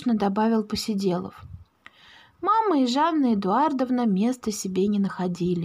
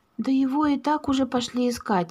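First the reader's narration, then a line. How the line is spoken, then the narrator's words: Mother sighing. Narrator (Russian): вздохнула мама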